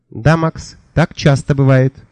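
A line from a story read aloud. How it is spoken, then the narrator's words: Plain. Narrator (Russian): сказала мудрая птица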